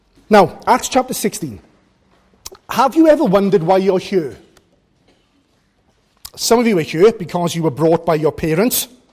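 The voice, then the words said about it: South Welsh accent. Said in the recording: “You can tell from the accent that I'm no stranger to this part of the world. So it's nice to come back to South Wales”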